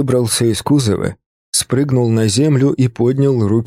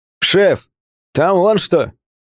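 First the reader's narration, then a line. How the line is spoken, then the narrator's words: Driver shouting. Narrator (Russian): крикнул водитель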